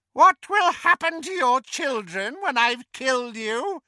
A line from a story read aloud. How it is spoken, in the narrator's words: taunted Bellatrix, as mad as her master